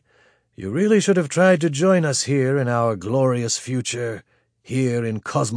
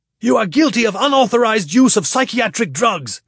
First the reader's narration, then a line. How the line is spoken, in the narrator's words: Grishkin shouted